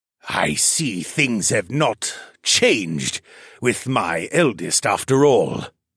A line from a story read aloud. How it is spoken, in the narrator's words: he rasped in a voice that sounded like coarse sandpaper